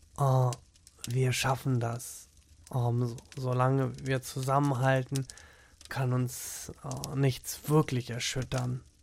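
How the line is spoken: Tender whisper. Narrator (German): Jürgen ... flüsterte

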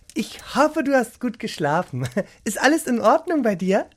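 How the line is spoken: Cheerful question. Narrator (German): fragte sie fröhlich

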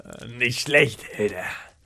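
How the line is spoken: Mumbling while chewing. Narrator (German): murmelte zwischen den Bissen

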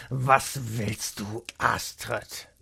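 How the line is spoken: Grumbling. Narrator (German): brummte er

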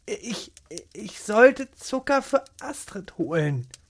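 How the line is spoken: Stammering. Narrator (German): stammelte sie

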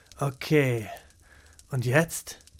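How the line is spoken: Quiet murmur. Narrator (German): murmelte leise

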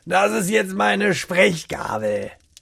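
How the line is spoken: Scornful announcement. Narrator (German): verkündete er mit einer abfälligen Stimme

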